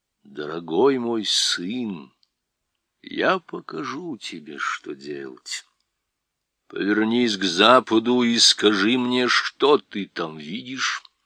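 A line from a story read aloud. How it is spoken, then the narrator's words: Lion, after deep sigh. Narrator (Russian): Лев глубоко вздохнул, сказал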